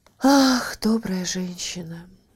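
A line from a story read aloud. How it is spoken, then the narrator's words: Sighing reply. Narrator (Russian): ответила, вздохнув королева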